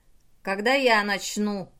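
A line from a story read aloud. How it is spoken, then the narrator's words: Roar. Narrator (Russian): взревел Чач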